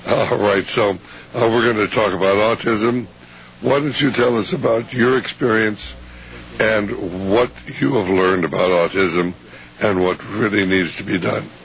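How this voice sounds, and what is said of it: Crackly, strained voice. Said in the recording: “My voice is a little crackery”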